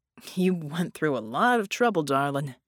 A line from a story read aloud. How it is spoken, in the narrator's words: Red groaned